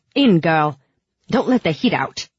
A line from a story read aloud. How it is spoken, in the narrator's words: Bagra just snapped